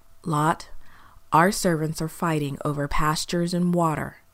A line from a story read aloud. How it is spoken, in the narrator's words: said Abram